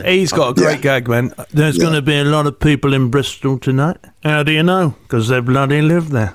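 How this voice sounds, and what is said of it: Imitates another person's voice. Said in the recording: “That's a very good impression.”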